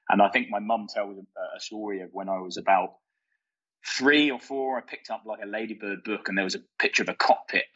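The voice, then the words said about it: London English accent. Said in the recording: “obviously you can tell by my accent that I'm not Australian straight off the bat. So I grew up in London”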